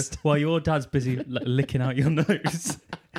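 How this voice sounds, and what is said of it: Put-on Geordie accent. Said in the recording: “She does that in a Geordie accent ... I didn't mean to go Geordie then”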